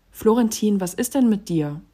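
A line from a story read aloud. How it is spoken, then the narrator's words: Calling out. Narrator (German): rief ich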